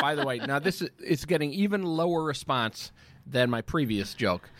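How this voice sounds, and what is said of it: Usual voice. Nothing is said of it.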